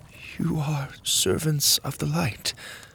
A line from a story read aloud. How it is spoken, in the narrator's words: she whispered